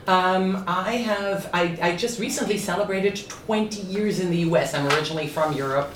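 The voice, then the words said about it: Accent between German and French. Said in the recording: “the accent is somewhere between German and French”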